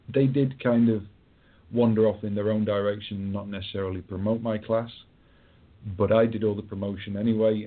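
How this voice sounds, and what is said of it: Strong regional accent. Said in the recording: “it's the accent. It took me a minute to understand what you had said there ... My wonderful Game of Thrones accent”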